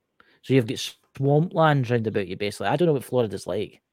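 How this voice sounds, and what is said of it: Scottish accent. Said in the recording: “I'm from Scotland, obviously. Tell my accent.”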